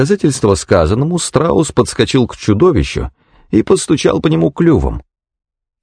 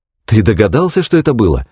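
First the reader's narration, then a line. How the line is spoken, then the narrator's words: Agitated speech. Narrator (Russian): взволнованно проговорил Лерой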